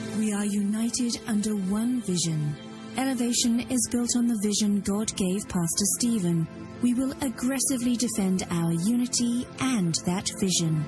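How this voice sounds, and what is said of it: Creepy-sounding voice. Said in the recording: “Kind of a creepy voice there”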